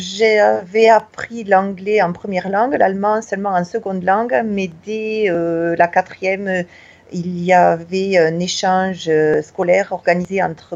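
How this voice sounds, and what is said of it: Southwest French regional accent. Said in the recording (French): “je suis originaire du Tarn, du sud-ouest de la France. J'ai gardé mon accent comme vous pouvez le reconnaître.”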